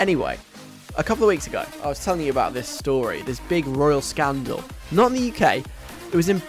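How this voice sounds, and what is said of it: Usual voice. Nothing is said of it.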